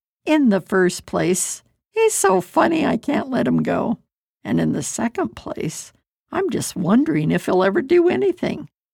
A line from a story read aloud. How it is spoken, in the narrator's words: The owner laughed and replied